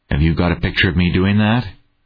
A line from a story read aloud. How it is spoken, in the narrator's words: He asked, flatly